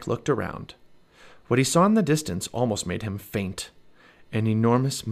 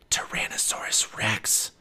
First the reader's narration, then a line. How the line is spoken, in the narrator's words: whispered Jack